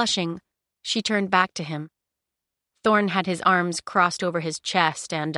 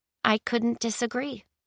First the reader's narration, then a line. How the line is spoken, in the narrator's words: she murmured